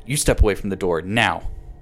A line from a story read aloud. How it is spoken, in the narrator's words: Tasha snapped